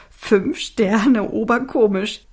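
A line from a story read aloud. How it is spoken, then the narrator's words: Giggling. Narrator (German): kicherte Alfie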